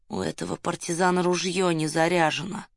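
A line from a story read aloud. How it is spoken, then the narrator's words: Through gritted teeth. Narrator (Russian): Ирас Петрович процедил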